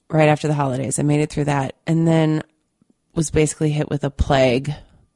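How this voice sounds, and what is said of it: Slightly stuffy, congested voice. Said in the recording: “maybe you can hear it in my voice, ... I got really, really sick ... fever, flu, cold ... still sound a little stuffy”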